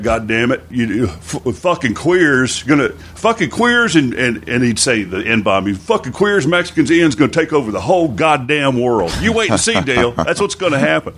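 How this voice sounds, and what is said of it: Old redneck man's voice. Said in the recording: “I do the voice of my old man ... do this voice of my dad. He just, it's old redneck.”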